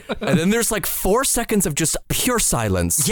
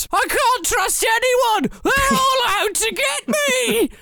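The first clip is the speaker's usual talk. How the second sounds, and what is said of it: Screamed line in Cockney accent. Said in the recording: “screaming in a Cockney accent”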